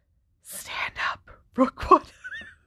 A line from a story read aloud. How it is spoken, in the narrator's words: whispered Harry